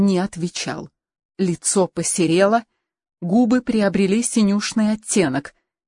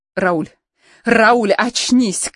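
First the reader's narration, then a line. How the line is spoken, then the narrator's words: Shouted. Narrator (Russian): крикнула она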